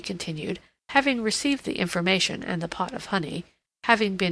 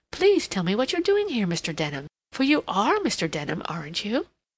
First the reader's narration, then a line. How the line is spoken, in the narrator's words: she exclaimed